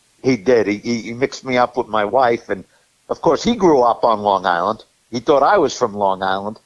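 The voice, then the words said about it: Brooklyn accent. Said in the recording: “I have more of a Brooklyn accent after 35 years in the Sunshine State”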